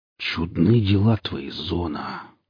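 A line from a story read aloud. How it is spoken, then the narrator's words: Muttered. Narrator (Russian): пробормотал Гриф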